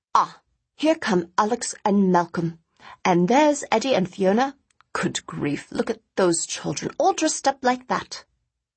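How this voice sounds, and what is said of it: Clipped English accent. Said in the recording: “announced in that same clipped English accent”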